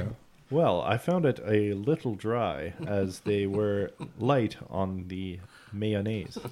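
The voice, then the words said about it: NPR-style radio voice. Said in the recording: “radio voice ... We all have to do our NPR voices now.”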